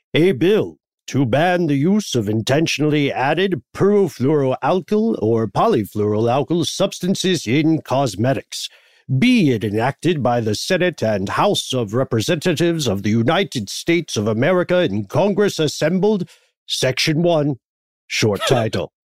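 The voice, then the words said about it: Formal official reading voice. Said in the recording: “do an official voice.”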